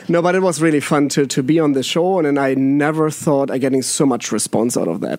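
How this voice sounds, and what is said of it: German accent. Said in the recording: “it's my German accent”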